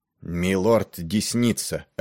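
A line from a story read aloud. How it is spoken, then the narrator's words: Announced in a harsh voice. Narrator (Russian): объявил Пиццель жестким голосом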